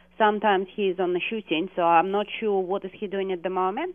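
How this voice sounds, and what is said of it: Speaks with a noticeable accent. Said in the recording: “Wow, did you hear that accent? ... That was awesome.”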